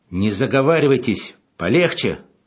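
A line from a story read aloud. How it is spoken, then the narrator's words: Shout breaking into shriek. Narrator (Russian): сорвавшись на визг, крикнул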